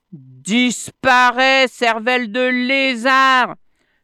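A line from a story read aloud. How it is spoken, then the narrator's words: Shouting from above. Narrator (French): lui cria Plamuseau depuis le sommet de l'arbre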